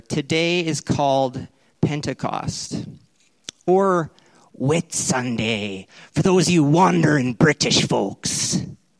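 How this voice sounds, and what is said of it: Put-on British or pirate accent. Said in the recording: “was that my British accent or my pirate accent?”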